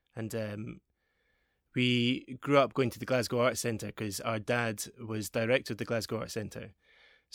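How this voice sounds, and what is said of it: Mixed Glaswegian and English accent. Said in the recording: “I grew up in Glasgow. I've got a really mixed accent because my parents are English.”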